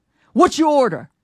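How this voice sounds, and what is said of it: Deep, gruff, hard voice. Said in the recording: “deep voice ... Like hard, came at me hard. ... gruff”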